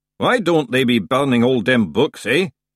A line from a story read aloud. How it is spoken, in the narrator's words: the unseen knee grumbled